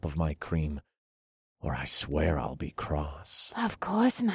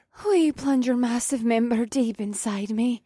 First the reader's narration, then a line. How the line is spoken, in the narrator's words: She breathed